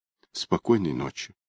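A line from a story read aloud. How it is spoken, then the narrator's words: Whisper. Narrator (Russian): Прошептав эти слова, Неда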